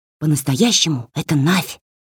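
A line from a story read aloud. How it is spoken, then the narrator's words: Whisper. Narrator (Russian): сказала она шепотом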